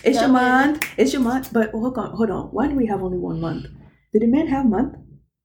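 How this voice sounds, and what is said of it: Nigerian accent. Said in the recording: “excuse my accent. I am Nigerian after all.”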